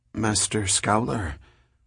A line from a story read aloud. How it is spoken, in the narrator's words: Sura Novi stopped and said hesitantly